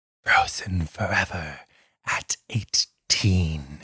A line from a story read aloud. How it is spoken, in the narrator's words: he whispered